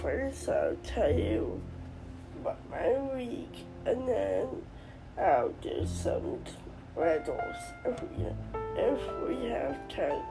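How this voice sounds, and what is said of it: Sick, unwell-sounding voice. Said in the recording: “I don't sound too good today ... my voice is sick”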